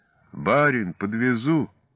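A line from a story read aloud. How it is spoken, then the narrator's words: Muffled sleepy calling. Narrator (Russian): просыпаясь, они глухо зазывали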